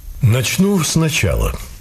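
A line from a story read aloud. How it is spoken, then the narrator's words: Calm. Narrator (Russian): спокойно сказал незнакомец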